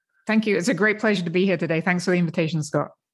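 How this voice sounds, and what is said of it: Speaks with a noticeable accent. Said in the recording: “your accent will make me maybe sound smarter”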